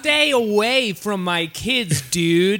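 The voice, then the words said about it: Goofy put-on accent. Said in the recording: “slipping into this goofy ass British accent... trying to do the Blink 182 voice”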